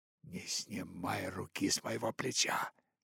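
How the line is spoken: Whisper. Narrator (Russian): прошептала Багира

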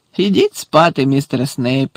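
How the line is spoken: Laughing. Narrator (Ukrainian): засміявся Муді

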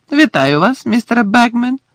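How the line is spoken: Cheerful. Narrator (Ukrainian): весело сказав Фред

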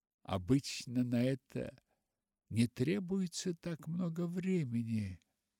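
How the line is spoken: Sigh. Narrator (Russian): вздохнула Полианна

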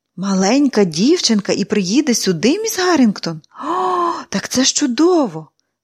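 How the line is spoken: Tender exclamation. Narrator (Ukrainian): вигукнула Ненсі, з ніжністю згадавши своїх маленьких сестричок, що лишилися у Корнері

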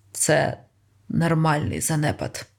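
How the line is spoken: Hoarse with a snort. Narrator (Ukrainian): хрипко сказав Ранситер, пірхнувши і скривившись

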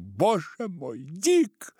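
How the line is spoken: Terrified scream. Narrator (Russian): в ужасе завопила

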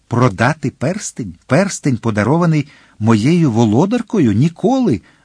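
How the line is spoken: Exclaiming. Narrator (Ukrainian): вигукнув Д'Артаньян

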